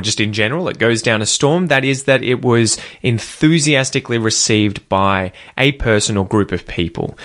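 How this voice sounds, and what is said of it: Australian accent. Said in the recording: “if you're working on your Australian pronunciation, obviously copy me as best you can”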